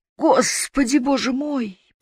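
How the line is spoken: Moaning. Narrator (Russian): простонала она

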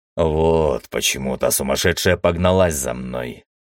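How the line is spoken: Pained mutter. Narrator (Russian): пробормотал я и поморщился от напомнившей о себе боли в плече и бедре

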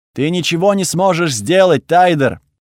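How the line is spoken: Shouted. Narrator (Russian): выкрикнула Тхаги

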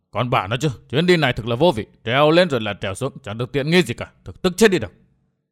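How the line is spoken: Muttering. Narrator (Vietnamese): Phong Lôi Thần lẩm bẩm

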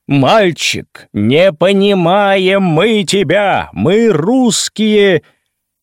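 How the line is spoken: Loud, echoing across gorge. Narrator (Russian): громко на все ущелье сказал

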